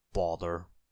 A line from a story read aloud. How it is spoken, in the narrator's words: said Mr